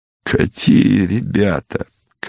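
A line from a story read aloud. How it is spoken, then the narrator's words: Capricious, fed-up tone. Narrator (Russian): капризным тоном человека, которому все опротивило, спросил Богомолов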